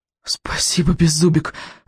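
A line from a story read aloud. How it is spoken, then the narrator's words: Breathless exhale. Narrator (Russian): выдохнул Икинг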